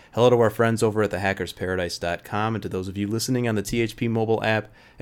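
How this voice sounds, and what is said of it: Stuffed-up, congested voice from cold. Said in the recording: “I sound a little stuffed up, ... I believe I have caught a head cold.”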